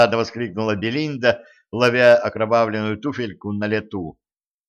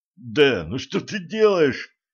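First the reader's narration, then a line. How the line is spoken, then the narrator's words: Moaning. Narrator (Russian): простонал Алекс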